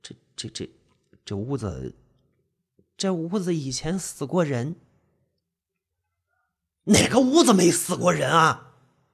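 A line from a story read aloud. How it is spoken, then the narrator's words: Stammering couple. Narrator (Chinese): 两夫妻俩支支吾吾的说出了一句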